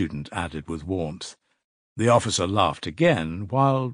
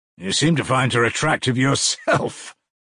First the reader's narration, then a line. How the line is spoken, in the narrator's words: laughed the officer